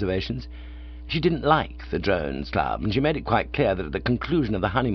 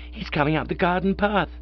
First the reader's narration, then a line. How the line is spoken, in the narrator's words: she cried gaspingly